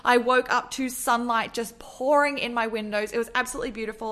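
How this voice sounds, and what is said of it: Australian accent. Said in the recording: “you didn't know what this accent was that you were listening to, I'm from Australia and I live in Melbourne”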